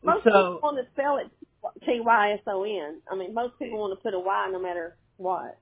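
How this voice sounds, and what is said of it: Southern American accent. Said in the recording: “I get Southern accents, don't worry. ... that's probably what it is, just the accent”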